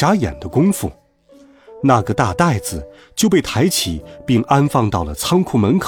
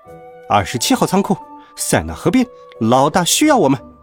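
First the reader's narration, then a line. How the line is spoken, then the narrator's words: Squeaking rats. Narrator (Chinese): 两只老鼠对手下吱吱叫道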